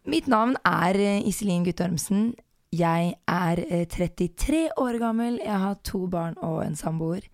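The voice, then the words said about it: Very hoarse voice. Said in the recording (Norwegian): “Jeg kjempehes, delvis fordi jeg litt forkjøla”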